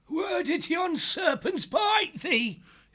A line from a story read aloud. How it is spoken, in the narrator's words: cried